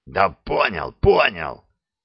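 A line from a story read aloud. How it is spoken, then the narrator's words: Reluctant hoarse sergeant. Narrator (Russian): Без особого энтузиазма прохрипел сержант, словно лейтенант предлагал ему что-то не очень приемлемое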